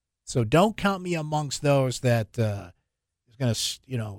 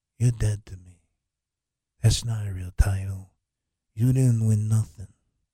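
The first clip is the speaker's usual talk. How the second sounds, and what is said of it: Mafia-boss character impression. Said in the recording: “my bad Corleone impression”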